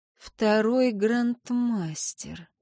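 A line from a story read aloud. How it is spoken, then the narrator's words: Slow repetition. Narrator (Russian): повторила медленно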